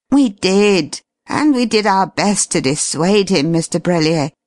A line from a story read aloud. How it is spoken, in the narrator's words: replied Merriton wearily